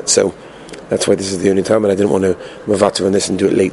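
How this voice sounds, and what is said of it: Weak, tired voice. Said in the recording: “my voice is a little bit schwach. I've not slept very much last night. I was on the flight.”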